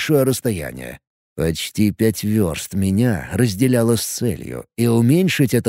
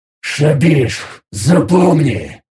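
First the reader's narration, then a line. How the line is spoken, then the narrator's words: Angry hiss, mighty voice. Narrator (Russian): злобно прошипел я голосом могучего Гирела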